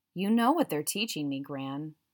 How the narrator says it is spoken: he replied wearily

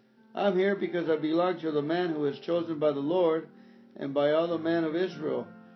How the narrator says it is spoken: Hushai replied

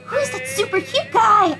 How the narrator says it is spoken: I squealed

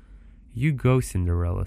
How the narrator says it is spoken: said she

